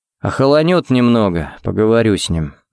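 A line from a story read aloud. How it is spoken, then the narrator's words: Sighing. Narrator (Russian): вздохнул он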